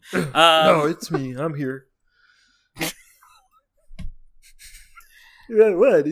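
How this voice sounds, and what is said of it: Weird-sounding character voice. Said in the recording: “Your voice is sounding a little weird.”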